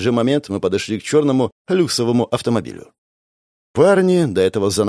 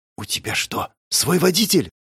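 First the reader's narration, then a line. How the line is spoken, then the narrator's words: Whispered. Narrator (Russian): прошептала она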